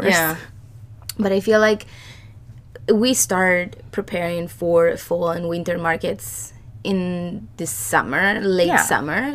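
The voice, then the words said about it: Scratchy, hoarse voice. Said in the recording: “sorry about my voice ... it just gets like scratchier and scratchier”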